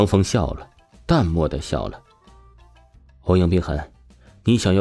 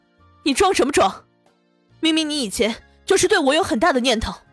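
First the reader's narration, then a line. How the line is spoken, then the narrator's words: Angry, loud. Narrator (Chinese): 欧阳冰痕愤怒了起来，大声说道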